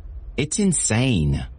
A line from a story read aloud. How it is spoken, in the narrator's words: Elizabeth exclaimed, falling onto the sofa in a huff